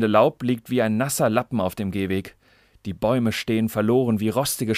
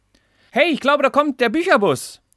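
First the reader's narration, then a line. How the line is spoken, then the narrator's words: Calling out. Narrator (German): ruft Lara ihrer Zwillingsschwester Sophie zu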